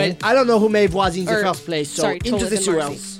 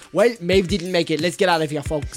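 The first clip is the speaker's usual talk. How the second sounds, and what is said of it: Put-on character accent. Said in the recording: “I forgot what my accent was for a second.”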